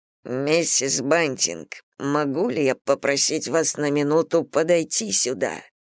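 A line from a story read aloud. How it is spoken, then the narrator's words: Hissed. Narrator (Russian): Мистер Слуд скорее прошипел, чем проговорил эти слова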